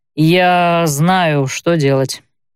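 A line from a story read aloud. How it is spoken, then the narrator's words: Drawled. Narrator (Russian): протянул он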